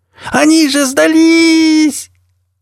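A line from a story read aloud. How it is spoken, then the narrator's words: Hoarse cracking shout. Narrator (Russian): Громко до хрипоты в сорвавшемся голосе крикнула Хип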